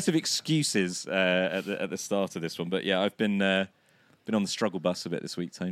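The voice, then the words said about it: Hoarse, strained voice from laryngitis. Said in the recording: “I'm hoping that my voice is going to hold out ... hay fever-induced laryngitis. Lost my voice. A couple of days ago, I couldn't really speak at all.”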